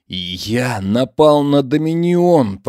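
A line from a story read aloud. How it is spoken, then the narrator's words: Whisper. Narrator (Russian): прошептал Ильяс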